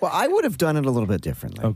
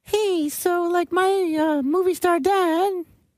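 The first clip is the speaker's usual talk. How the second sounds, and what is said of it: Child-like character voice. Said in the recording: “do a kid voice”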